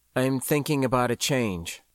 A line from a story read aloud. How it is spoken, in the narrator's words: I said evenly